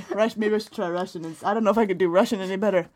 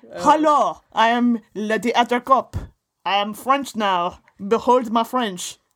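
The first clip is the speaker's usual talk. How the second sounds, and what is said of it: Bad put-on French accent. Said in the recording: “A bad French accent.”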